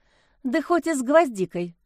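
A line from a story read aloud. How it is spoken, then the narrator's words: Sighing. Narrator (Russian): вздохнула Лиза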